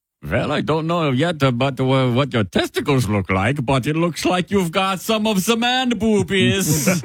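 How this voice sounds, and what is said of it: Put-on German accent. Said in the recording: “people wish this doctor had a German accent ... deliver the news about breasts in the style of a German doctor”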